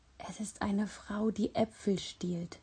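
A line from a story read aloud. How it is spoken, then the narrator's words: Breathy whisper. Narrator (German): hauchte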